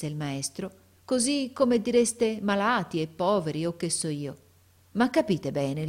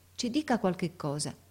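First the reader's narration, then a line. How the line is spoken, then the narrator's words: Half-voiced. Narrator (Italian): De Rossi disse a mezza voce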